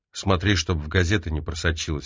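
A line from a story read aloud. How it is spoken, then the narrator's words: Plain. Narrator (Russian): ответил Фрэнк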